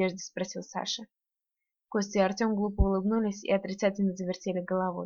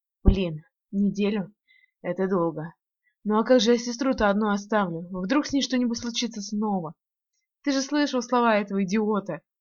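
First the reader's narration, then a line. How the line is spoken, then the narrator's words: Frightened rapid chatter. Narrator (Russian): испуганно затараторил Саша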